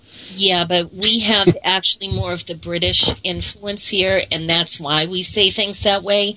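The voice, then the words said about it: Boston accent. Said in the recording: “the way that I spoke the Boston accent”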